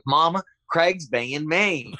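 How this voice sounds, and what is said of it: Put-on Southern accent. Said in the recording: “I had to learn a Southern accent.”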